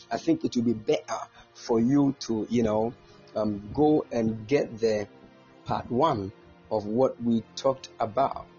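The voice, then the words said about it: Put-on British accent. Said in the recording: “Let me go into the UK accent.”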